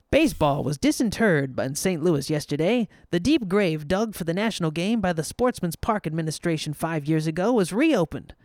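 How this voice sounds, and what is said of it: Old-timey accent. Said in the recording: “I'm going to do it in an old-timey accent.”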